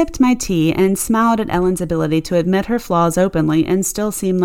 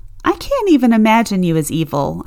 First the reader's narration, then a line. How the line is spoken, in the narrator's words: I laughed